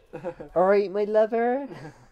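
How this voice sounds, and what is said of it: Put-on West Country accent. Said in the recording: “Can do a better West Country accent than you... I think mine's still decent... Oh, it's very good. It's just like you don't have the region, the home team advantage.”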